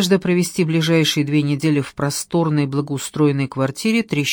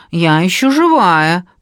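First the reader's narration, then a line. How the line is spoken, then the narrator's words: Nasal voice. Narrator (Russian): прогнусавила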